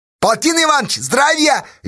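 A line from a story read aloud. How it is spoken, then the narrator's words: Cheerful shout. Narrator (Russian): весело крикнул мужику Федька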